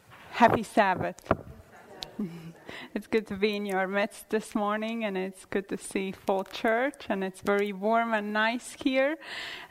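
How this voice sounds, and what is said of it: Latvian accent. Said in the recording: “where is her accent coming and why can't we understand her ... I come from a small country in eastern northern Europe called Latvia”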